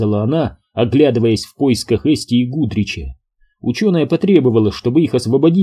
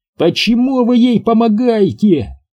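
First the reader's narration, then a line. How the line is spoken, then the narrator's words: Wailing. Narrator (Russian): вопила Фаштоми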